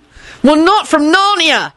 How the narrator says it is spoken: Harry yelled back

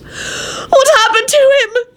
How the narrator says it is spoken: She wailed and rushed up looking frantic

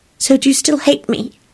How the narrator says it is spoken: She said in a very small voice

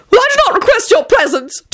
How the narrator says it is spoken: Tony wailed

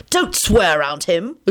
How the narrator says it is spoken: Lupin said crossly

